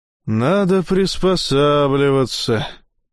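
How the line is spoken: Gloomy repetition. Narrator (Russian): уныло повторил Умсла

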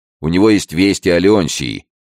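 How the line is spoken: Shouting. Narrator (Russian): крикнул Алессандро

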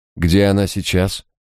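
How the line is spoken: Calm inquiry. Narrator (Russian): спокойным тоном осведомился Харснет

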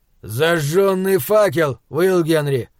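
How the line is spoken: Barked. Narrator (Russian): он рявкнул

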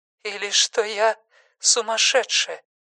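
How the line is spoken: Trembling, confused voice. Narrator (Russian): Продолжила женщина дрожащим голосом, не поняв вопроса

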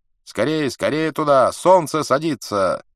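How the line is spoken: Shout. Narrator (Russian): Один из них крикнул

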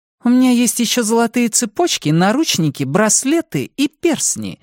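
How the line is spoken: Sarcastic declaration. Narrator (Russian): заявила Сильфана язвительно

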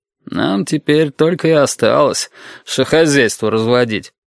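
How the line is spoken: Grumbling. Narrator (Russian): проворчал Толик

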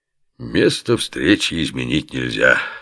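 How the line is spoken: Sentimental mumble. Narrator (Russian): сентиментально пробормотал Оболенский

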